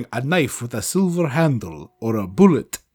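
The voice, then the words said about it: Dracula-like put-on accent. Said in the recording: “mine kind of sounds like Dracula”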